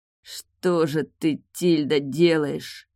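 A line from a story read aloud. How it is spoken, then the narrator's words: Strained through gritted teeth. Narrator (Russian): сквозь зубы процедил он, чувствуя, что вот-вот его накроет оргазм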